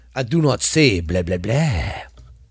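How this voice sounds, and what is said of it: Attempted Dracula character voice. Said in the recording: “I'm trying to do my Dracula voice, but it's kind of hard too.”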